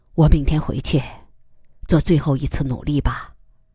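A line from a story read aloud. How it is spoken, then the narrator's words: Sighing, brief, over phone. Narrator (Chinese): 电话那边，贺子洲叹息一声，简短的说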